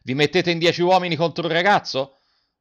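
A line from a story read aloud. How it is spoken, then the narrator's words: Shouting. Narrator (Italian): Garrone gridando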